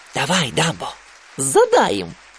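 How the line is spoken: Whisper into ear. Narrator (Russian): Тимоти прошептал ему на ухо

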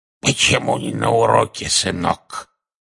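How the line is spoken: Hoarse rasp. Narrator (Russian): Одна из них прохрипела

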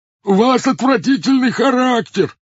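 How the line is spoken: Excited shouting. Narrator (Russian): возбужденно кричал он

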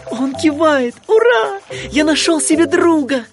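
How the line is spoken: Joyful shout. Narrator (Russian): Гадкий утенок радостно крикнул

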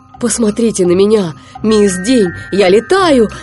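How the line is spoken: Ecstatic joyful shout. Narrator (Russian): закричал СМИ вне себя от радости

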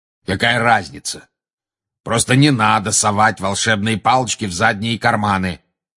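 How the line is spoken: Growled. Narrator (Russian): прорычал Грозный Глаз

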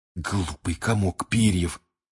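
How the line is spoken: Hissed. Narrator (Russian): прошипел Рон

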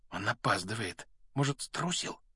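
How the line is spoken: Whisper. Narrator (Russian): прошептал Рон

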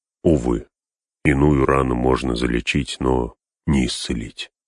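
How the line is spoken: Sighing. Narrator (Russian): вздохнул Гэндальф

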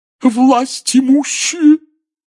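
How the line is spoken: Hollow sobbing proclamation. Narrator (Russian): глухим рыдающим голосом возвестила Трелони

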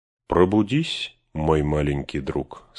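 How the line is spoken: Plain. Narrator (Russian): сказал он

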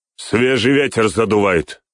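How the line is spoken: Shouted. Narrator (Russian): крикнул

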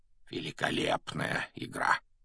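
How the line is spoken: Quiet, barely audible. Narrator (Russian): Негромко, чтобы его мог слышать только Гарри, произнес Дамблдор

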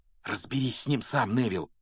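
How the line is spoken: Whispered. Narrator (Russian): шепнул он

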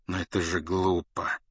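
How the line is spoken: Gentle remark. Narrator (Russian): заметил Люпин мягко

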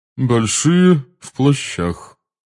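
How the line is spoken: Cold repetition. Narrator (Russian): холодно повторила мадам Боунс

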